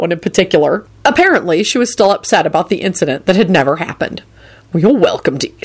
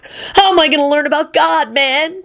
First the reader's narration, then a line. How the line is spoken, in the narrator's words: Kenny wailed piteously